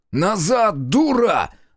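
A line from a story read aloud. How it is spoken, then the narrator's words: Yelling. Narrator (Russian): заорал Зотов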